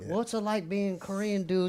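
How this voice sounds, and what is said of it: Put-on older white guy accent. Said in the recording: “Why did your accent change right there? ... I'm trying to put myself as like a white older dude”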